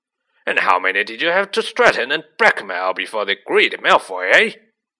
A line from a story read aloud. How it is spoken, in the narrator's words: he roared